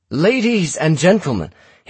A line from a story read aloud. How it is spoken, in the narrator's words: Hadrian cried